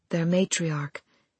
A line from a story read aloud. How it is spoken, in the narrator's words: Ahiru said very softly